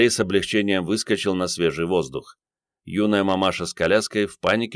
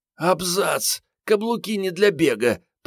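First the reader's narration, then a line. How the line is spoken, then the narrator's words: Hoarse wheeze. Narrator (Russian): прохрипела Мариетта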